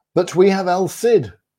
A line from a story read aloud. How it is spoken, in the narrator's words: cried the people in the streets